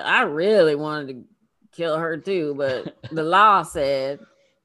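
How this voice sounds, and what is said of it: Foghorn Leghorn-style cartoon accent. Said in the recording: “I gave the prosecutor that accent ... It was like foghorn, leghorn. I say.”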